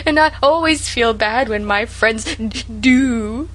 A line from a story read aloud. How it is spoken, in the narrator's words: sobbed Sarah